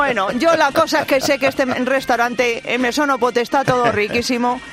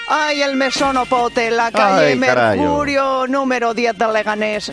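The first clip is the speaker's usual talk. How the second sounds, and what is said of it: Attempted Galician accent, sounds Catalan. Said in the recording (Spanish): “Si es que te sale mejor a ti el acento gallego. ... Es que estás poniendo catalán. ... O chulapa.”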